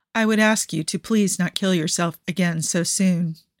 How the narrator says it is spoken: he says, his voice steady

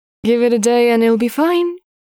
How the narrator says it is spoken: Victor said, his tone uncertain

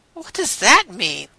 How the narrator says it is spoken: Rodney asked nervously

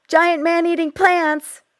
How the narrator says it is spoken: Amy shouts

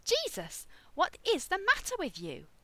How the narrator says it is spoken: Rodney yelped

